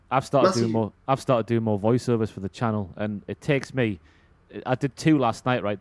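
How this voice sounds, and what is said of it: Geordie accent. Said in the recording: “I need to lessen the Geordie”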